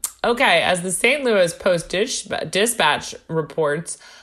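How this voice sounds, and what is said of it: Usual voice. Nothing is said of it.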